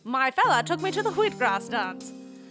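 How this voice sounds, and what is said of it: Put-on transatlantic accent. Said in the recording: “If you ever want to get into the transatlantic accent, just say Wheatgrass Dance.”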